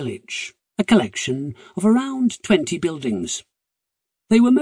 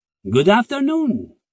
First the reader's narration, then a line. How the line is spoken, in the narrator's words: he said cheerfully